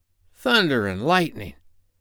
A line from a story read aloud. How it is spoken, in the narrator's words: Ben Ali muttered